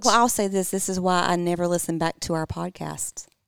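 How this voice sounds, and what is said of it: Southern drawl accent. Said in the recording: “a good Southern accent ... Sink into that Southern draw”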